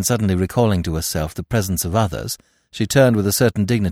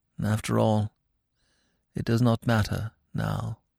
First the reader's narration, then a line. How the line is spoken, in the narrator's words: with a gesture of infinite weariness, she murmured as though to herself